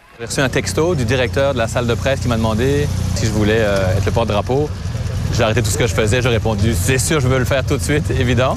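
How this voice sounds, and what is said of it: Mixed Québécois and Belgian French accent. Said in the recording (French): “Vous allez l'entendre avec son accent... Quand je suis en Belgique, j'ai l'accent québécois, puis ici, le monde me dit que j'ai l'accent belge”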